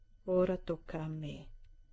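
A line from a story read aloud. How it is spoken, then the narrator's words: Whispered. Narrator (Italian): ha bisbigliato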